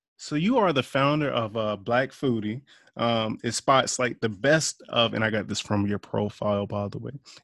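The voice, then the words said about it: Polished radio announcer voice. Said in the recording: “You got such a radio voice.”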